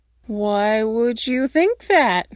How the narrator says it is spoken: Styles asks slowly

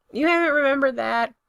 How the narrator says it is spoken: Brendan yells back, his voice muffled

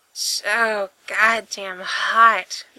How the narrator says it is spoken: Gerard groans

